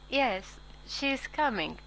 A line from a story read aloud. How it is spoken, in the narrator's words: she said, and though her voice was steady